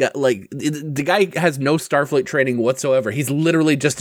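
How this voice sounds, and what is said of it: Usual voice. Nothing is said of it.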